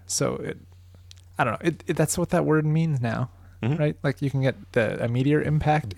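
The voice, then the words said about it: Nasal, stuffed-up voice. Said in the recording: “I sound a little nasally or stuffed up, that's because I literally am stuffed up”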